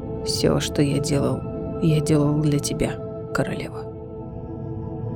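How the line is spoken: Hoarse, strange voice. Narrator (Russian): Ларкан хриплым, не своим голосом произнес

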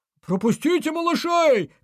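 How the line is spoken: Shouting from the queue's back. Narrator (Russian): кричали с хвоста очереди

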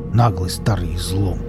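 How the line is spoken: Irritated grumble. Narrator (Russian): буркнул Велес, у которого уже не было ни капли желания общаться с этой вечно плачущей девицей

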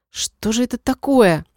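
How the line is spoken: Indignant whisper. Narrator (Russian): возмутилась шепотом

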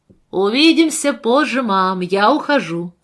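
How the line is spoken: Shouting. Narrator (Russian): закричал Рик

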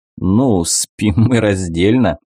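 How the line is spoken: Laughing. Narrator (Russian): рассмеялся Дебор, с любовью

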